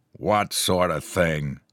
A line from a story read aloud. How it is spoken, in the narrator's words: growled the other, a big beefy person